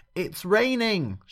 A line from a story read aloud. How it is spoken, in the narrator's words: shouted Doggo